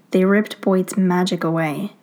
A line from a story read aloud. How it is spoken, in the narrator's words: Stiles states flatly